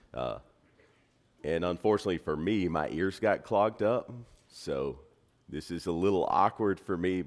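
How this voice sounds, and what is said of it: Slightly deeper, congested voice. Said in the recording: “my voice sounds a little different ... My allergies hit this week, and so I may sound a little deeper ... I hope that my voice is not too distracting”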